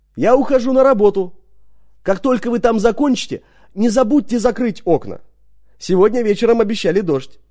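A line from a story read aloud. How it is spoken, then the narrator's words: Calling out from window. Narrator (Russian): Дженни, высунувшись из кухонного окна, крикнула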